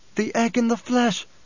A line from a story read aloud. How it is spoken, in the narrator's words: she gasped